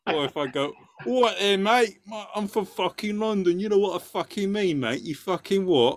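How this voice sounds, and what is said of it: Put-on Cockney accent. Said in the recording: “I'll put on my Cockney accent”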